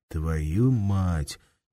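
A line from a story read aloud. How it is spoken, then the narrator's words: Quiet. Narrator (Russian): тихо сказал кто-то рядом с Лихолетовым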